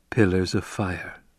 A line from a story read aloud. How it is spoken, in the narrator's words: Paul whispered